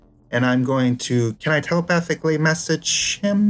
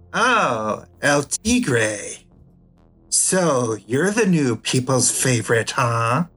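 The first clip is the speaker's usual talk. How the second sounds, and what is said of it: Theatrical villainous character voice. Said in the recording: “in my full psychomancer voice,”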